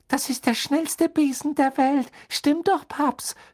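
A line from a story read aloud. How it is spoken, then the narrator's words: Small boy squealing. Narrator (German): quiekte ein kleiner Junge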